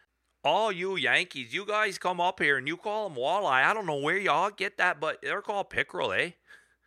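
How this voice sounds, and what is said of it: Put-on Canadian accent, drifting Wisconsin. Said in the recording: “after you spend a couple of days in Canada, you got to have a little bit of an accent ... Now it's getting a little bit of Wisconsin.”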